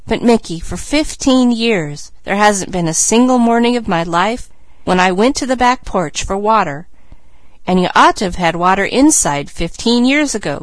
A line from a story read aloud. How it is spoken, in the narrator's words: cried Mickey